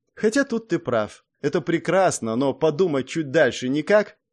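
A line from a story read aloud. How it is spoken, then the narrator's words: Mocking question. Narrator (Russian): насмешливо спросила она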